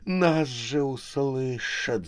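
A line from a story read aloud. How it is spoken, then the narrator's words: Hissed. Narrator (Russian): зашипела Харя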